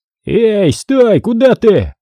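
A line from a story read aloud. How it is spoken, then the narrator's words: Shouted after someone. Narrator (Russian): закричал вслед улепетывающему парню череповец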